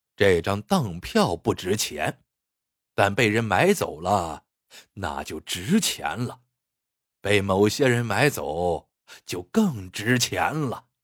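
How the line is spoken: Sly chuckle. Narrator (Chinese): 孙德福狡黠的笑笑说

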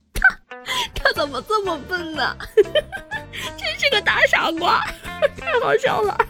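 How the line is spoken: Breathless laughter. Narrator (Chinese): 平兰……笑得上气不接下气的，嘴里说着

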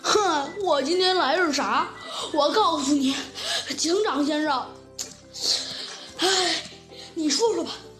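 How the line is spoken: Mournful, near tears. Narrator (Chinese): 老牛啊，哭丧着脸说道

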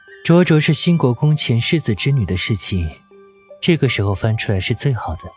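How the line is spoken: Flat, indifferent tone. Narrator (Chinese): 他淡淡的道

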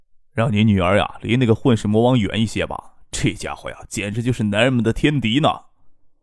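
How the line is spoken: Hushed low voice. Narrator (Chinese): 于伟压低声音说

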